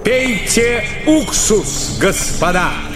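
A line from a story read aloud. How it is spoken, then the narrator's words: Plain. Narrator (Russian): сказал Шуев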